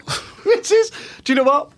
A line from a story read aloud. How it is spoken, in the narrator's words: I laughed